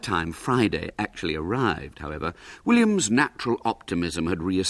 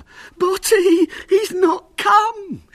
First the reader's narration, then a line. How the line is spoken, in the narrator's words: she said hysterically